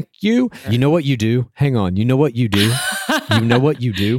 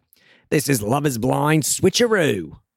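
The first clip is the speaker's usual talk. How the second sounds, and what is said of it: Put-on Australian accent. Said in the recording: “That was my Australian accent.”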